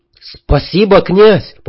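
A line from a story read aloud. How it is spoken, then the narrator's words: Near shout. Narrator (Russian): почти закричал Мило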